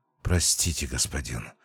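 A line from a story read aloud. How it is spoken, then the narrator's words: Old man's strained breath. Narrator (Russian): с трудом выдохнул старец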